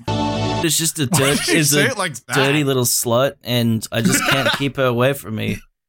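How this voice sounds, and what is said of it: Imitated accent of a friend. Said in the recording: “doing an impression of Full Metal? ... it sounds like you're trying to imitate their accent”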